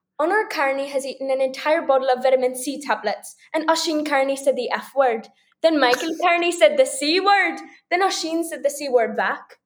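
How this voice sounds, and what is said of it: Irish accent. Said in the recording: “You could just talk in your Irish accent for a minute.”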